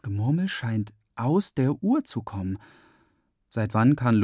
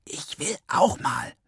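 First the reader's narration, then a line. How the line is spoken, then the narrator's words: Whisper. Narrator (German): wispert eine Dritte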